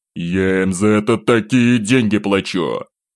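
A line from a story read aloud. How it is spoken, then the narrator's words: Through teeth, restrained fury. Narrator (Russian): сквозь зубы, едва сдерживая ярость, бросил Пожарский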